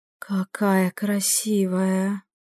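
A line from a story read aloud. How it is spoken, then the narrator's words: Soft breathless exclamation. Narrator (Russian): тихо выдохнула Лириния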